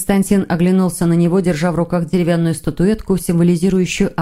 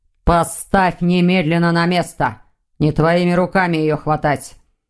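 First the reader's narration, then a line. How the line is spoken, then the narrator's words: Grumbling. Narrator (Russian): проворчал Александр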